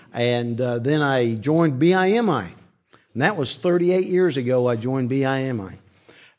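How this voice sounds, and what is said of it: South Carolina Southern accent. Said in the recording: “that's where I got my accent, in South Carolina.”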